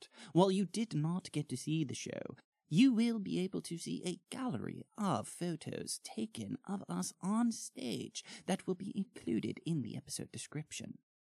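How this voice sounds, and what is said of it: Rehearsed put-on accent. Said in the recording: “I have been working on this accent for about 5 weeks.”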